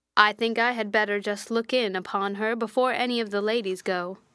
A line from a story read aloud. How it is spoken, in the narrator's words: said Colonel Dent